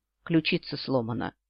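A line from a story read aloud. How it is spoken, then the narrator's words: Gruff mutter. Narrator (Russian): буркнул кошак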